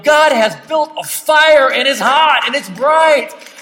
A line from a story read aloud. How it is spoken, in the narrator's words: yell